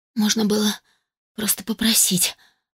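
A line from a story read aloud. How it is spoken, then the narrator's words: Muttering. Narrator (Russian): бормотала она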